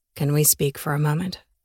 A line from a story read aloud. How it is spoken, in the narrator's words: he whispered